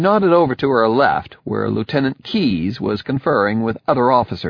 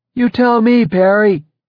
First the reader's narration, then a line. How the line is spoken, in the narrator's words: shouted back